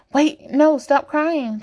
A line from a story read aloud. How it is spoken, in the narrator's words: Chase says frantically